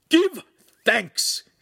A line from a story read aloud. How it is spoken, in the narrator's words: He shouted